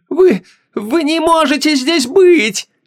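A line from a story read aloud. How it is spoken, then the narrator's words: Shout. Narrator (Russian): закричала Гвиньола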